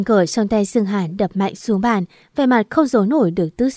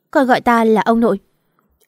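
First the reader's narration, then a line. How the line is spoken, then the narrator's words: Cold. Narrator (Vietnamese): Sương Hàn lạnh lùng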